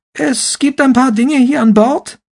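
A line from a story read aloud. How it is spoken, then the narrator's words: Shrill voice. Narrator (German): sagte Roald Amundsen mit seiner schrillen Stimme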